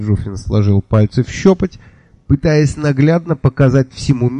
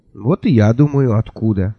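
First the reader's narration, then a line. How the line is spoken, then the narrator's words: Sighing. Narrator (Russian): вздохнул я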